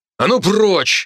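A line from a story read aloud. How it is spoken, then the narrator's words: Magically amplified bark. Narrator (Russian): рявкнул я, усилив голос магией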